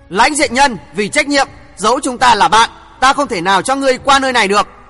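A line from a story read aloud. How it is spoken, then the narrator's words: Shout, then cold voice. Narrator (Vietnamese): Đinh Hồng hét lên một tiếng, lạnh lạnh nói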